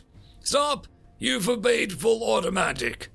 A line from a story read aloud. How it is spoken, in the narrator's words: shouted Vidya